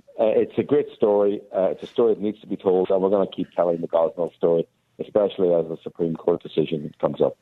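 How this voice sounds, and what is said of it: Hoarse voice. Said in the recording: “I'm actually cold. I've got COVID at the minute, so my voice might be a bit hoarse.”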